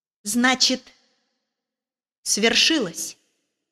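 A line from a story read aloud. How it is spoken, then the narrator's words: Quiet. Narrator (Russian): тихо сказал он Мэри Поппинс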